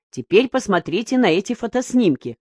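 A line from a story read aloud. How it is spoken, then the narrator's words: Plain. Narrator (Russian): сказал Юлту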